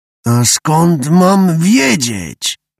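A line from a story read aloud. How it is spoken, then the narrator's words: Child grumbling. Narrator (Polish): burknął mały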